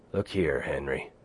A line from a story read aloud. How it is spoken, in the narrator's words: Bill said, unconsciously lowering his voice to a whisper because of what he imitated